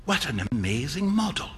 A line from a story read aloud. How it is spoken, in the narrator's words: whispered Hughie